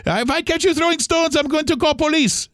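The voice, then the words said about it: Imitated foreign accent. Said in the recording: “he was a guy with a foreign accent”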